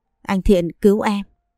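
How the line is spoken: Trembling plea. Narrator (Vietnamese): run rẩy bảo

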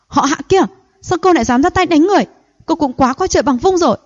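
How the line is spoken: Furious shout. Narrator (Vietnamese): Thôi Anh căm tức hét to

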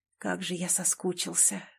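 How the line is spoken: Breathed out. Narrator (Russian): выдохнул

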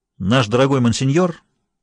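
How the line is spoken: Said sharply. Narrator (Russian): резко сказал Нерон

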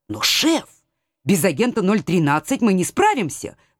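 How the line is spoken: Urgent exclamation. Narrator (Russian): воскликнула я

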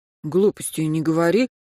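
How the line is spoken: Whispered. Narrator (Russian): прошептал Сергей

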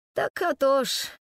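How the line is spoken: Heavy sorrowful sigh. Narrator (Russian): Тяжко-горестно вздохнул Михалыч

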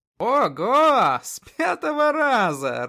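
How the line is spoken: Laughing. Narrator (Russian): рассмеялся князь

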